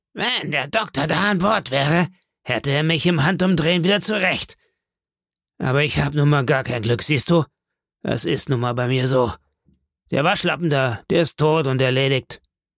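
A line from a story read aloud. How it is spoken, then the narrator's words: Grunting, barking. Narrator (German): grunzte, ich möchte beinahe sagen, er bellte und sagte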